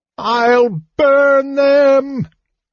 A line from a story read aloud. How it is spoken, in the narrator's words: She howled, sniffing the smell of steel through the tunnel